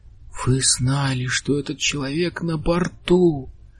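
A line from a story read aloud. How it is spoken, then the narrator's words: Breathless exhale. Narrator (Russian): выдохнул Бартоломью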